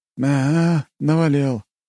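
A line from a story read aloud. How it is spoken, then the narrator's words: Sad wry chuckle. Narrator (Russian): грустно усмехнулся капитан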